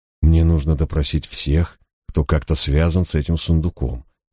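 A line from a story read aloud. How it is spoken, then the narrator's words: Soft speech. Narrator (Russian): мягко проговорил я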